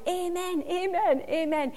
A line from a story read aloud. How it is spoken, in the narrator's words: shouting